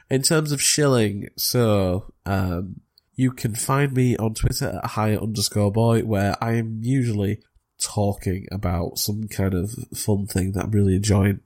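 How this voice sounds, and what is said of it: Croaky voice. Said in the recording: “My voice is getting so croaky. I'm just getting over a cold.”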